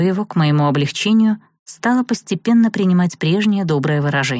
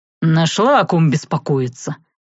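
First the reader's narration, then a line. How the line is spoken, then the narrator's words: Exasperated snort. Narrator (Russian): не выдержав, фыркнул Савелий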